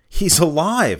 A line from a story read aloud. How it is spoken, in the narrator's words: shouted